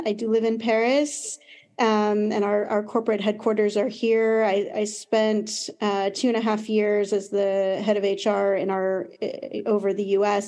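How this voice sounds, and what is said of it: American accent. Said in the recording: “As you can probably hear from my accent, I'm American.”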